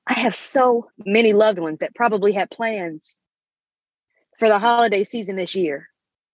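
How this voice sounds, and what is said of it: Choked-up, emotional voice. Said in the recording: “I'm getting a bit choked up.”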